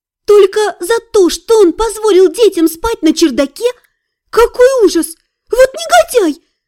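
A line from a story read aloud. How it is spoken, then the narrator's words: Exclamation. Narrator (Russian): воскликнула Эзриль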